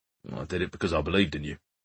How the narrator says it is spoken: Martin muttered

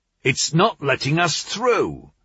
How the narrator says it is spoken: shouted a man

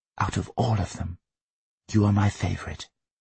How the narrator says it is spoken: His mother whispered

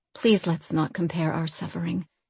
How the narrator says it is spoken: Mirren said quietly

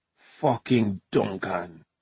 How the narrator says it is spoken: he hissed

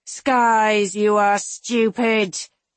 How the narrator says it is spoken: Marcus groans

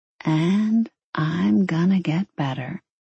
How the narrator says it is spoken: she finished quietly

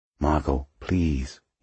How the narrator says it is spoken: he said quietly

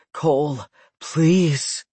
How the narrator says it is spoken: panting out a raspy

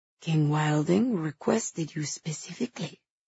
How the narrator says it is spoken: Nicanor said quietly

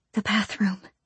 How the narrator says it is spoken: she whispered

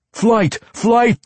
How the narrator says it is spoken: the drow group commander yelled back

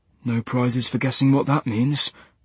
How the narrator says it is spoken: muttered Max

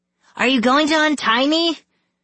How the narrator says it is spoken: Scarlet cried

